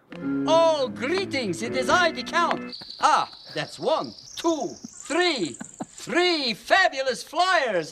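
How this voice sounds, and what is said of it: Impression of the Count from Sesame Street. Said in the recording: “Sesame Street ... doing his best impersonation ... Very good.”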